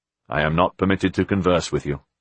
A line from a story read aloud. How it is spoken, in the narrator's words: the man said in a monotone